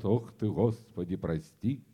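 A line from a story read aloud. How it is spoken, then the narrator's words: Quiet praying. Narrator (Russian): тихонько молят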